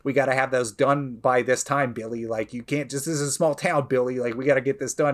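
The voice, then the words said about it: Put-on New York accent. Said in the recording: “She's like New York accent”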